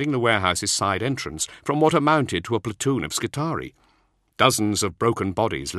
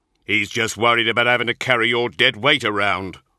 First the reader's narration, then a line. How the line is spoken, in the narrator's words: Cole growled